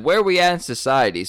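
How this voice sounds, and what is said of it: Put-on southern accent. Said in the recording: “with, like, a southern accent that I'll go for”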